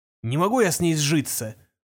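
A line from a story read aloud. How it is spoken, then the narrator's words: Gloomy utterance. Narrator (Russian): мрачно вымолвил он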